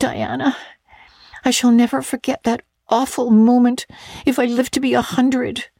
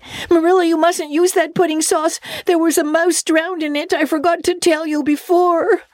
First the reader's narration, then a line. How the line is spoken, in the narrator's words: shrieked out